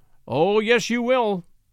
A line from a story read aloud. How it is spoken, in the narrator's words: we all exclaimed together